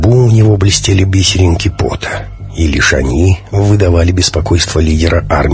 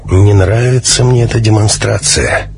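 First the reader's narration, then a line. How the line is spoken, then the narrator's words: Gloomy. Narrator (Russian): мрачно произнес товарищ Альфа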